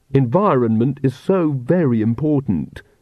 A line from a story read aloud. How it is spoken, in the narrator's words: said Magrat solemnly